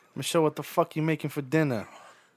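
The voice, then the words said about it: Put-on Boston accent. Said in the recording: “You think I could do a Boston accent for a full day?”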